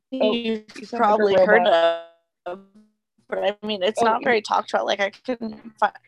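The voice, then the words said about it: Robotic, glitchy distorted voice. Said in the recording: “you sound like a robot ... Ma'am, you sound like a robot.”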